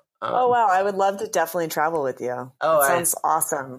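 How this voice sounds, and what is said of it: Sarcastic fake enthusiasm. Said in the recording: “I was being sarcastic as hell.”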